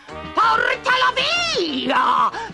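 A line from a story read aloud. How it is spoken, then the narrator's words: Shrieked. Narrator (Italian): strillò Nonna Nodo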